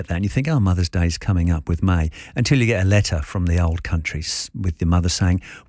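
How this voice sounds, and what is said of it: British accent. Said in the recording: “As you can probably tell by the accent, I'm from the UK originally”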